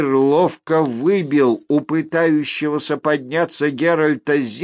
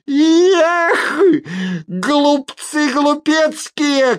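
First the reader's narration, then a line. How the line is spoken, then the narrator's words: Crackling shout. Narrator (Russian): крикнула она с треском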